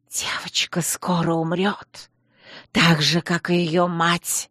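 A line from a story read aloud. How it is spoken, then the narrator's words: Woman's hiss. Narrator (Russian): Шипение, вырвавшееся изо рта женщины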